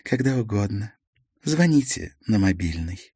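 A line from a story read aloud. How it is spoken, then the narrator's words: Quiet. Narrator (Russian): тихонько сказала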